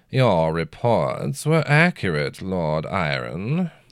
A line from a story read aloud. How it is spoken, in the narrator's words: the drawling judge said